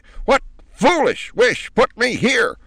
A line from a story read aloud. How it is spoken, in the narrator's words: demanded at the top of her voice